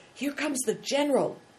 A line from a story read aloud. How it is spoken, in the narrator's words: Big Tiger whispered